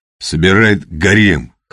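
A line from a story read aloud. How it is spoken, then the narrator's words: Smirking snort. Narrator (Russian): хмыкнул Петр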